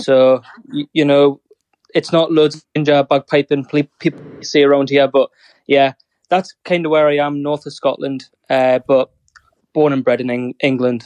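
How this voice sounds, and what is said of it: Northern English accent. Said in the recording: “I have an English Northern accent”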